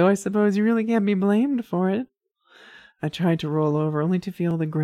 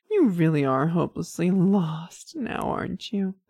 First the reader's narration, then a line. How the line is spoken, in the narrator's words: She chuckled